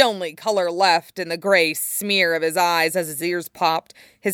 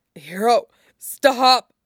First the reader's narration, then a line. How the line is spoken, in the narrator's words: Eraserhead wheezed brokenly